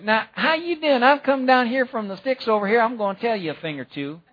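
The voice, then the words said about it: Put-on thick rural country accent. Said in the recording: “probably had a thick Galilean accent ... like one of those guys out in the sticks ... I hope I'm not offending anybody with that accent”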